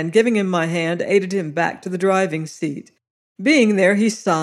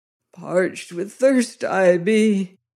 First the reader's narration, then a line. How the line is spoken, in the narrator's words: he groaned